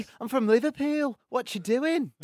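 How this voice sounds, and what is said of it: Put-on Liverpudlian accent. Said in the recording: “I can do like Liverpudlian accents”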